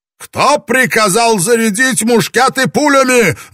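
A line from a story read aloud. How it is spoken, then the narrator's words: Roaring. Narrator (Russian): взревел Ябу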